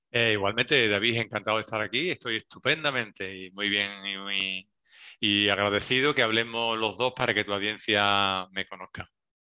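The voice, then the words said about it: Slight Andalusian Spanish accent. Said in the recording (Spanish): “con ese acento? ... Se nota un pelín ... me notan que soy andaluz ... no tengo un acento súper marcado”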